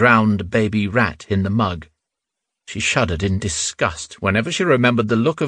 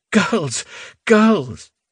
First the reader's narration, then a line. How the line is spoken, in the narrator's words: she wailed